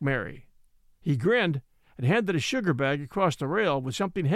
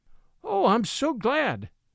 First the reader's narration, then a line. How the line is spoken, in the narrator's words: cried Mary